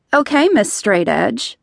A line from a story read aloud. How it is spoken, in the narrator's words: Emma laughed